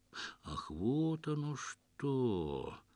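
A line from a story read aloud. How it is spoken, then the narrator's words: Slow singsong drawl of realization. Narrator (Russian): Медленно и певуче протянул знаток женских душ, для которого неожиданно все стало на свои места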